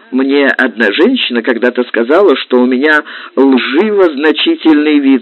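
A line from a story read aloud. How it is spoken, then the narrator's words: Laughing. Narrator (Russian): сказал, смеясь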